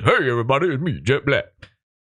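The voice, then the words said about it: Deep-voiced character voice. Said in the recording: “He's big. He's black. He got a deep voice.”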